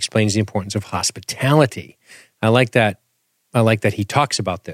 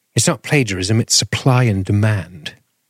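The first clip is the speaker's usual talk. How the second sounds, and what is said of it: Over-the-top impression of Lee's accent. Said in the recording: “I like when you do the Lee accent. ... It's over the top. ... I suck at it.”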